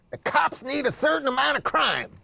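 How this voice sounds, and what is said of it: Imitates another person's voice. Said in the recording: “To quote Chris Rock ... I don't know if that was a good impression”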